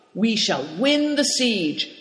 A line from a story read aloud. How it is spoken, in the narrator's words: cried Cao Cheng proudly